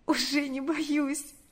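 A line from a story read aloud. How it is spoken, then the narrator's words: Sobbing yet smiling. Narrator (Russian): ответила она, всхлипнув и улыбнувшись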